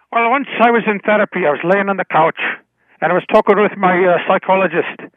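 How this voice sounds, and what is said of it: Put-on Irish accent. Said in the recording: “give the Irish accent a try”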